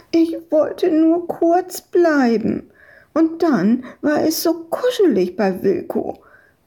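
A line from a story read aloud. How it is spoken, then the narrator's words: Whining. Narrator (German): jammerte Madita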